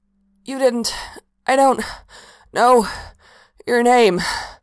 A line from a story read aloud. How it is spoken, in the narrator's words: Mikael gasped out, a bit hampered in the process of coming up with a complete sentence